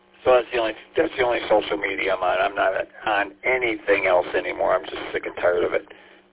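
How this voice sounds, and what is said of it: Hoarse, strained voice. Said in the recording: “excuse me, I'm losing my voice. I had throat work done.”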